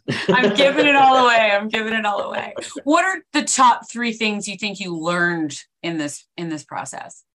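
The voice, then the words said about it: Canadian accent. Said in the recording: “I like the Canadian accent”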